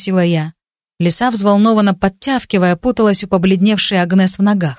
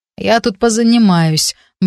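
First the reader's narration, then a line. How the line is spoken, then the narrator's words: Gloomy reply. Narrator (Russian): мрачно ответил Джесс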